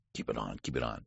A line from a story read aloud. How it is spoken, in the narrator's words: said Mr